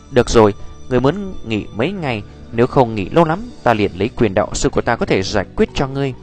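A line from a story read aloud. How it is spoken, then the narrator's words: Gentle, soft. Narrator (Vietnamese): Nhược Lâm đạo sư khẽ nhíu lại, rồi là nhẹ nhàng gật đầu ôn nhu nói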